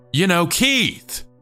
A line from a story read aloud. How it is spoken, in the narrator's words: I yelled again